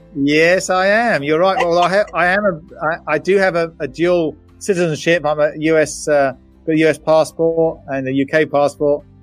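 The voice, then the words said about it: British accent. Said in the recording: “they can tell by the accent you're from the UK”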